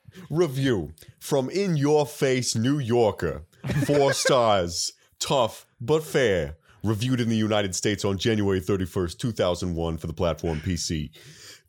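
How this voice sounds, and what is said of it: Put-on Boston-style New York accent. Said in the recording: “is there someone here who can do like a New York accent? ... It's going to be a Boston accent, but I just pretend that it's a New York accent.”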